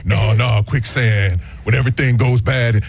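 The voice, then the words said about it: Imitates another person's voice. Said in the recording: “my Keanu Reeves impression.”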